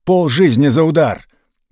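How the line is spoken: Desperate shout. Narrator (Russian): поручик, не видя исхода, уже прощаясь с жизнью, крикнул

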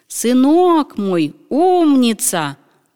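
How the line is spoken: Wailing. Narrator (Russian): волк завопил

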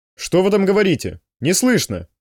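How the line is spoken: Barked. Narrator (Russian): рявкнул Можай

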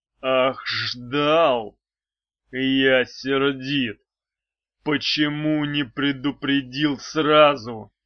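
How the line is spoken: Growl. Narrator (Russian): прорычал мечник

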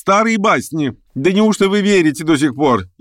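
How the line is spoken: Bursting out laughing. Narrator (Russian): Я расхохотался

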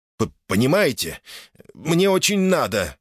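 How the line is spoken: Pleading. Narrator (Russian): взмолился Чип

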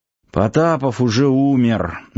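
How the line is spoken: Reluctant strained words. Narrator (Russian): неохотно выдавил Сафонов-младший

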